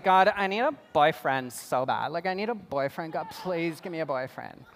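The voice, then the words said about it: Imitates a girl's voice. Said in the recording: “That's my impression of a girl.”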